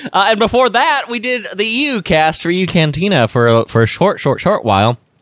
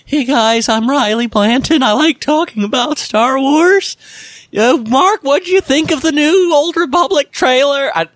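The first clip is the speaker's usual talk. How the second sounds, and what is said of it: Exaggerated impression of younger self. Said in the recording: “That's probably a terrible impression, but it's about as bad as I was back in those days.”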